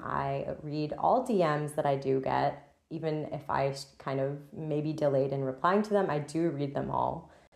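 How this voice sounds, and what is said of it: Scratchy, weird-sounding voice. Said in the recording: “Hopefully, when my voice is less scratchy and weird.”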